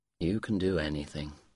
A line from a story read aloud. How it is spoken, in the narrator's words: he replied tenderly